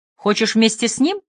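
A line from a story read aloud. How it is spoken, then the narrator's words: Sharp question. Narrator (Russian): Мой вопрос прозвучал так резко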